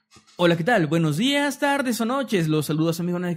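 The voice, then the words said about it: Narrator voice. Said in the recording (Spanish): “Un saludo con voz de narrador”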